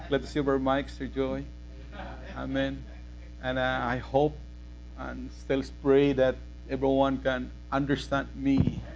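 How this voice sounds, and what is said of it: Filipino accent. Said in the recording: “my accent, Filipino accent.”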